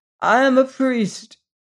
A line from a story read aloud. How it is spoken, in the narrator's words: he cried unsteadily